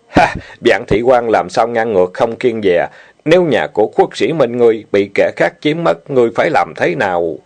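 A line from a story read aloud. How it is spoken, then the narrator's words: Loud laughing, from outside. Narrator (Vietnamese): Tiếng Lý Viên ở ngoài cửa vang lên cười lớn nói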